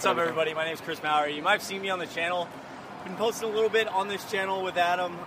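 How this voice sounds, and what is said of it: Slightly out of breath. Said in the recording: “I'm a little bit out of breath, a little sweaty”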